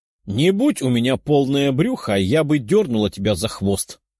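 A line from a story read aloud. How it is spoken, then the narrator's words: Growling. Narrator (Russian): рыкнула Лиза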